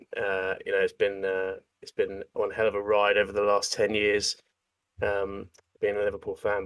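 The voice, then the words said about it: Thick Scouse accent. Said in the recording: “my thick Scouse accent”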